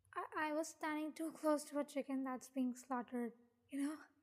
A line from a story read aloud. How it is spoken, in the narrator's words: He laughed